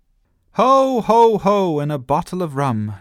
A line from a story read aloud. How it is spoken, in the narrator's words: shouted Sophie